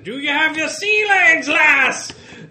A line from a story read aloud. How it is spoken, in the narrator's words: He screams